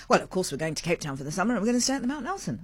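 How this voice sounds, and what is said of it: Put-on voice of upscale guest. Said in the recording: “I don't know why I'm doing that voice, but I mean, that's who I imagine is coming, these sort of people.”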